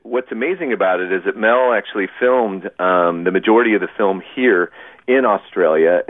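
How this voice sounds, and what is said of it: Non-Australian accent. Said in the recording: “with my accent, it's very evident that I didn't grow up here in Australia”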